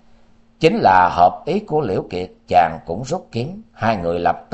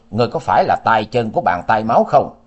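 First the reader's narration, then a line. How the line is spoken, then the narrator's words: Roused, fierce shout. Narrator (Vietnamese): Liễu Kiệt tinh thần đại chấn, quát, nói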